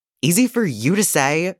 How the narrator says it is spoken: Steph shouted from the other end of the dining table

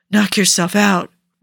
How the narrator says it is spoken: Rodney gasps breathlessly

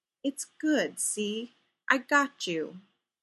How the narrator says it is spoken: He was still murmuring

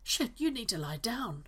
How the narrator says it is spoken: Rodney said nervously, hoping John wouldn't just pass out on him

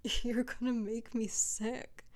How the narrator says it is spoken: he laughs

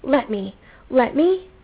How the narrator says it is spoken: panting

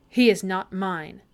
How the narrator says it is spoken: Thorin says sternly

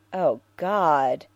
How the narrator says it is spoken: House mutters

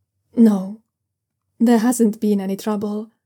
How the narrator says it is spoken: Jiang Yang answers, trying to keep his voice calm

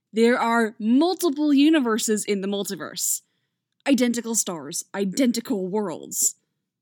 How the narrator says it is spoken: he adds triumphantly

